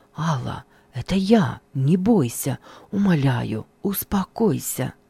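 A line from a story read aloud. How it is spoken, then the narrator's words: Whispering. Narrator (Russian): Женя зашептал при встрече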